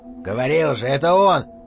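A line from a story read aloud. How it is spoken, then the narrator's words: Wolf's growl. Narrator (Russian): прорычал волк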